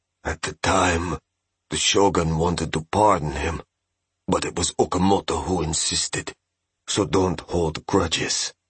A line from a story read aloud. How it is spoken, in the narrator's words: Master Sugihara said in a whisper